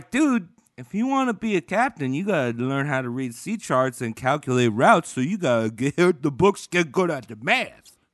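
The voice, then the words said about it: Imitates another person's voice. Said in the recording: “your best Cosby impression”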